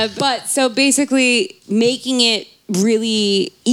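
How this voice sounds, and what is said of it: Usual voice. Nothing is said of it.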